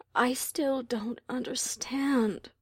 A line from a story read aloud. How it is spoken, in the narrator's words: Luna said at last, quietly